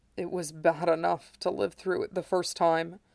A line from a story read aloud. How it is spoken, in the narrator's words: Sephiroth replied, his voice hardly more than a rasp